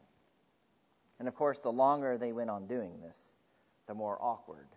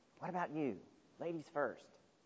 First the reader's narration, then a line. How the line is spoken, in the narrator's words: whispered Peter